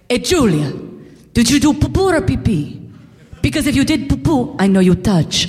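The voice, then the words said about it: Imitated Italian-accented mother, yelling. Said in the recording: “My mom is this Italian immigrant. You'll figure that out by the accent. But she would yell across the restaurant. ... she would scream it.”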